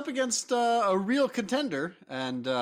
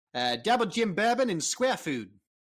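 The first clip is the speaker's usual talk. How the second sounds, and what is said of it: Attempted Australian accent. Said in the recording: “I'll try out my Australian accent here ... You were good until the word feud.”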